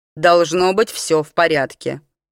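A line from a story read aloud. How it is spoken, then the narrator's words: Sullen mutter. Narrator (Russian): угрюмо буркнула Кейра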